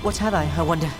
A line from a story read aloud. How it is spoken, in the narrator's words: He said to himself as he panted